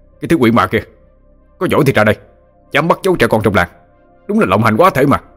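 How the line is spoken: Man shouting angrily. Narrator (Vietnamese): người đàn ông quát

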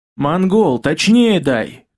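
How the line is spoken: Demon shouting into microphone. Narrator (Russian): крикнул в микрофон демон

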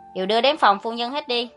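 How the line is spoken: Angry speech. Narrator (Vietnamese): Hắn tức giận đến mức muốn quăng lễ vật xuống đất, đi nói với gã sai vặt

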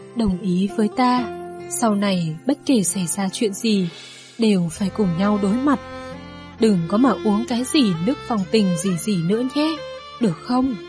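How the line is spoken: Sighing speech. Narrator (Vietnamese): Vân Châu thở dài lại nói

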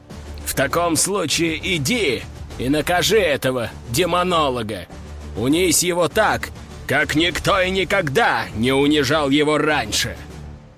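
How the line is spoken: Duke snarling. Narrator (Russian): рыкнул герцог

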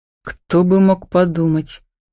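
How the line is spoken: Grumbled. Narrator (Russian): пробурчал Роман

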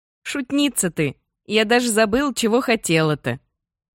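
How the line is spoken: After laughing. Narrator (Russian): Отсмеявшись, говорит

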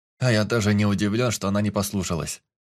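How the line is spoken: Wry snort. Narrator (Russian): хмыкнул Лоренц

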